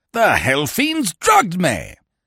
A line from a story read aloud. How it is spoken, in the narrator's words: he shouted